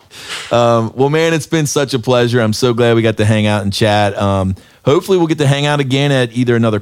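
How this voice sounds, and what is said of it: Heavy Southern American drawl. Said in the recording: “my southern draw has is escalated a little bit ... when you hear another southern accent ... It really does come out a, a little heavier”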